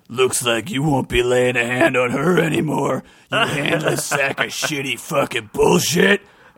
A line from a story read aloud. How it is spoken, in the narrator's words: Eric said gruffly